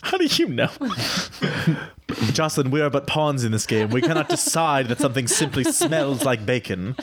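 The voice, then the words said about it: Character voice with put-on accent. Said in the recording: “Don't be fooled by this flawless accent.”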